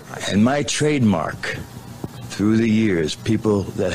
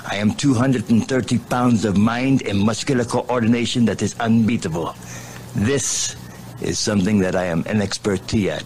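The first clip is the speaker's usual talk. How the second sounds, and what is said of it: Wrestling gimmick voice with put-on accent. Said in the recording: “My voice would change. I would accumulate an accent as I'm talking to you here and now.”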